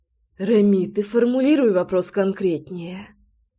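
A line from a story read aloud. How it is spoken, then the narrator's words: Breathy exhale. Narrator (Russian): выдохнула Громова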